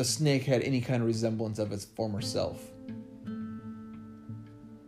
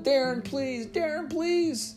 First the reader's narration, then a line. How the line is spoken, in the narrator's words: Screaming as it took her to the ground, Heather wailed